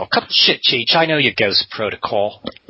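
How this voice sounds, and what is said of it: Put-on British accent, female character. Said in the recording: “Were you worried I wasn't going to do a British accent ... She's from a different part of England.”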